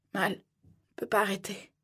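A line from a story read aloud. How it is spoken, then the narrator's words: Mumbling. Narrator (French): marmonnait-il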